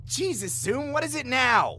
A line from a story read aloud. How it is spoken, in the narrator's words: I snapped